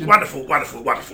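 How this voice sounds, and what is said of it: Imitates another person's voice. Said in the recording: “did a David Bellamy impression”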